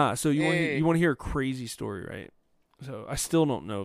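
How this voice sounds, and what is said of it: Usual voice. Nothing is said of it.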